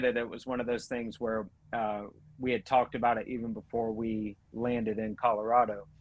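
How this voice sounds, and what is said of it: Georgia Southern US accent. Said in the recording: “I have an accent, so when I say Estes, it's just because I'm from Georgia”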